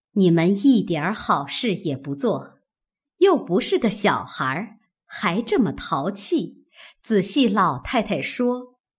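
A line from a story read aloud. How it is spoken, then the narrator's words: Laughing, coaxing. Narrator (Chinese): 李纨笑劝道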